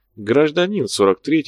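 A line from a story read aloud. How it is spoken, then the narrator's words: Calm correction, convict. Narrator (Russian): спокойно поправил зэк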